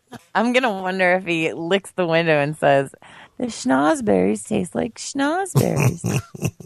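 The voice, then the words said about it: Impression of a drug-addicted coyote. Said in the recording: “do an impression of a drug-addicted coyote”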